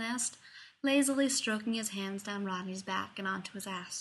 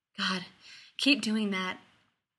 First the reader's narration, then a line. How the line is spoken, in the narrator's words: he panted